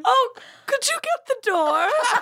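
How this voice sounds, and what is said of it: Put-on British accent. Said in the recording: “I have a British accent when we're working.”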